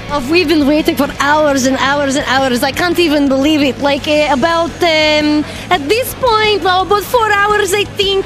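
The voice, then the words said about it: Foreign-sounding put-on accent. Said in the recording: “That's an interesting accent.”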